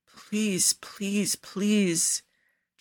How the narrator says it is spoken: Cesare mumbles in delirium

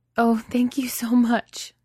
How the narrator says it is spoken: the woman says, sobbing

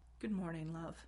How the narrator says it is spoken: said softly, a little cautiously

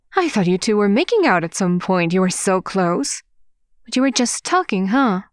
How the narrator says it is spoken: Wei Ying laughed too loud for it to be a natural reaction

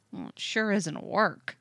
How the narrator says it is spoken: Tim mutters

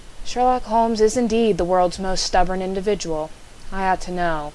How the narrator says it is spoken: I sighed

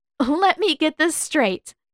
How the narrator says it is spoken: said, still shaking with laughter

